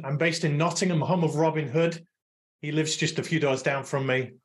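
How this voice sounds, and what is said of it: English accent. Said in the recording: “I'm the one with the English accent.”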